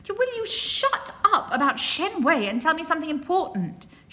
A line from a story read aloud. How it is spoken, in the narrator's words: shouts